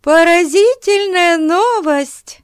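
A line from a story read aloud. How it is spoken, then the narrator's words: Exclaiming. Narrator (Russian): воскликнула она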